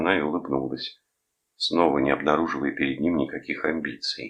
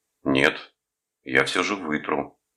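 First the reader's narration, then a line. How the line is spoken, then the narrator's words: Commanding, repeating. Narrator (Russian): властным тоном повторил он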